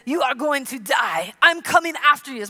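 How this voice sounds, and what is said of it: Poor put-on Russian accent. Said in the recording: “My Russian accent is awful.”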